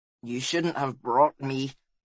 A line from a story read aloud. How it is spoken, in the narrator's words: grumbled Balistar